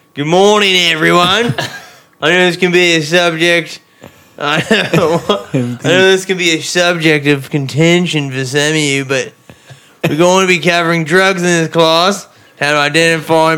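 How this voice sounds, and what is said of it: Put-on Australian accent. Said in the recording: “I need an Australian accent.”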